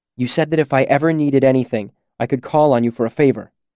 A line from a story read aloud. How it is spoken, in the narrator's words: I said urgently